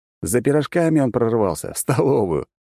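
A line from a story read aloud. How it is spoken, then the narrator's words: Laughing. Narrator (Russian): рассмеялся я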